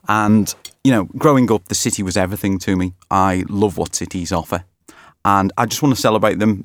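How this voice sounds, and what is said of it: Merseyside (Liverpool) accent. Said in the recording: “as you can tell by my accent, perhaps I come from Merseyside”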